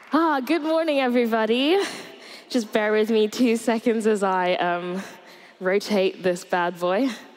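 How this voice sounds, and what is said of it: Slightly out of breath. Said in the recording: “I'm a little bit out of breath because I just ran from upstairs”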